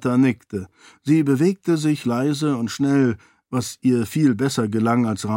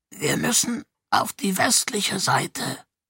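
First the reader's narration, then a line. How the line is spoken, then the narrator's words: Croaking voice. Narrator (German): sagte, seine Stimme nur noch ein Krächzen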